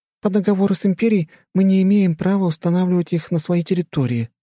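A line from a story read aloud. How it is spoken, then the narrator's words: Queen's sigh. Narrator (Russian): вздохнула королева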